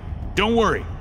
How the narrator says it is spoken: he yelled

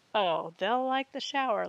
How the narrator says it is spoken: laughed Olivia

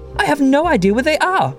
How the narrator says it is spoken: exclaimed

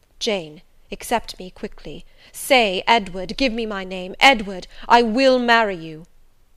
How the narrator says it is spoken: he ejaculated, and added wildly

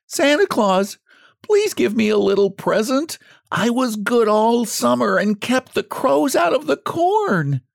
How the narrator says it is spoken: pleaded the poor scarecrow in his choking voice

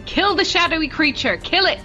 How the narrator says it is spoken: shout

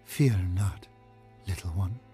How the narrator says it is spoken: she whispered in a faltering voice

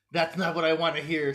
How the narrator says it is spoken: Satan laughs

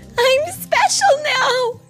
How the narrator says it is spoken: she cried out loud

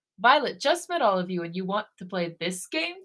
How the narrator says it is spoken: Taehyun laughs

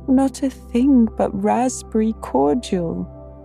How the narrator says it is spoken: sobbed Anne

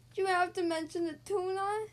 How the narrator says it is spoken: Scout wailed

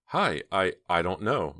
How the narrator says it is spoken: Myra stammered

